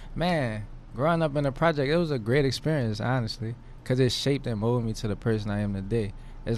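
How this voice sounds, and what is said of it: New Orleans accent. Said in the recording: “I could tell you from New Orleans ... I could tell from just the accent.”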